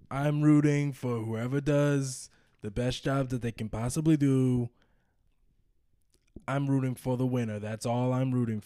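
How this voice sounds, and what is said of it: Donald Trump impression. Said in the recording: “you do the best Donald Trump impression.”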